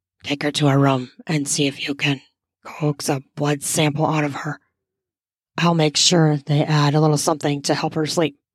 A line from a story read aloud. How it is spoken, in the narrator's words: He whispered